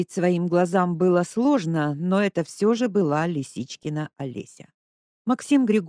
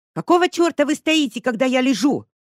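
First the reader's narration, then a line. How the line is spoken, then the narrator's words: Yelled. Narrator (Russian): заорала она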